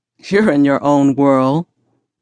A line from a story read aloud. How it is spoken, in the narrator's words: said with a chuckle